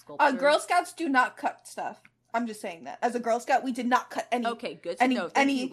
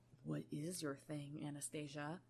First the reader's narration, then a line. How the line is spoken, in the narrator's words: He asks, his voice soft